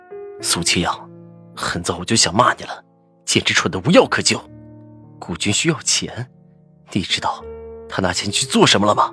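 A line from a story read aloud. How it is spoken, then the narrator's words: Through gritted teeth, furious. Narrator (Chinese): 赵以静忽然变了神色，几乎咬牙切齿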